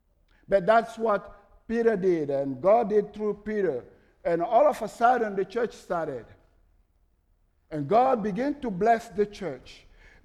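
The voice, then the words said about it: Strong foreign accent. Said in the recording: “my crazy accent”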